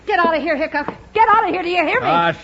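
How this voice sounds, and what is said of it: Yelling angrily. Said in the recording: “Stop yelling”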